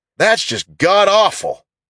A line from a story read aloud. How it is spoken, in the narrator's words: Bob shouted